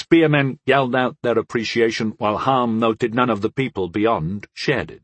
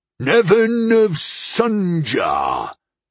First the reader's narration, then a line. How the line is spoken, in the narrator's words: Nevin roared